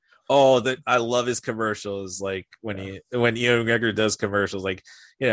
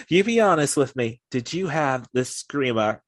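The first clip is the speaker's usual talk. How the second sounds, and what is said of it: Put-on Scottish accent. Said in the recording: “I'm trying to throw some Scottish accent in just for the hell of it”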